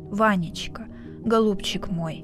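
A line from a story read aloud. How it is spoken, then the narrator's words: Quiet tender call. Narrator (Russian): Тихо и ласково позвал он внука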